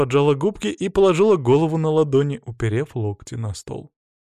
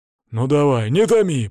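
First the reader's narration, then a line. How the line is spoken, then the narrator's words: Grumbled. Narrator (Russian): пробурчал Свари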